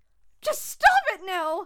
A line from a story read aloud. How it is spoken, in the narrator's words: Monica barked